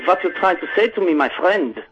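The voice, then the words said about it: Put-on German accent. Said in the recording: “Okay, give me German. ... You want me to talk like I'm from Germany?”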